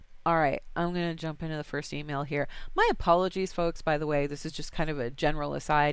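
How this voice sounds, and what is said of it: Congested, sick-sounding voice. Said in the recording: “my voice sounds really weird, I've got a cold and I'm coughing like crazy when I'm not actually speaking. So if I sound a little funny”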